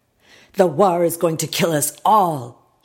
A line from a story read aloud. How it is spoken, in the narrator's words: he yelled